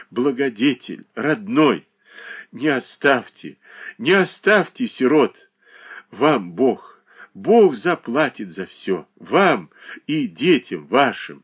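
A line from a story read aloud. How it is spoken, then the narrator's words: Sobbing. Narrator (Russian): рыдала она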